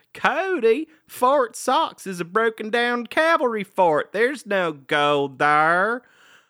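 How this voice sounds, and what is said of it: Exaggerated accent imitating Carly. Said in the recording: “dial that accent up to 12”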